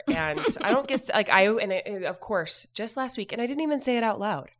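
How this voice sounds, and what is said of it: Congested, lower-pitched sick voice. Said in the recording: “I sound like a dude today, it's because I have had a really bad sinus cold, and I'm still like an octave lower”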